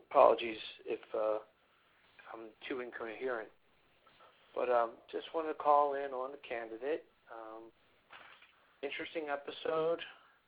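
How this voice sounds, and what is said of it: Voice with a slight sore throat. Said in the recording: “I've got a little bit of a sore throat.”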